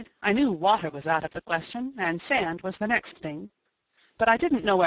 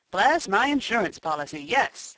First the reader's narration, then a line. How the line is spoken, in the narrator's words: exclaimed Mr